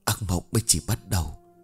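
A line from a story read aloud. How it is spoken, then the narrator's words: Uneasy soft whisper. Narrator (Vietnamese): Một sự bất an không kìm nén được trong tâm khảm, cô khẽ thì thầm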